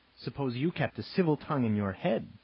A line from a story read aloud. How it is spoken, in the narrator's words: Robert snapped